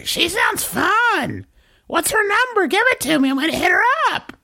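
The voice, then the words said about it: Cartoonish stereotyped woman voice. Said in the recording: “You can't do an impression of any woman that sounds like that ... Is the embodiment of the cartoon Kathy ... you just did a Kathy”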